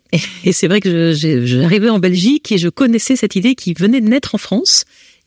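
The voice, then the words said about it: French accent. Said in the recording (French): “vous l'entendez peut-être, j'ai un accent français.”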